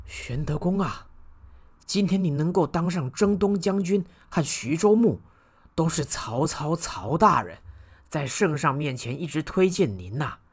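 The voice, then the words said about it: Quiet, hushed speaking voice. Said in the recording (Chinese): “小声地说”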